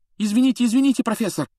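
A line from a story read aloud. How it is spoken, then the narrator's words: Rapid chatter. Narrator (Russian): затараторил Джордан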